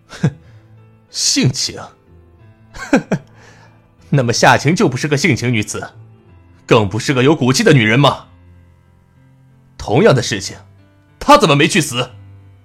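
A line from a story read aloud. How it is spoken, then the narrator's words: Cold sneer. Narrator (Chinese): 陆泽磊却冷笑一声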